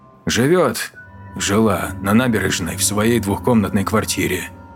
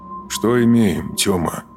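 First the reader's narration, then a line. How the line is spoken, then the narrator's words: Calm inquiry. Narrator (Russian): Спокойным тоном поинтересовался Леминов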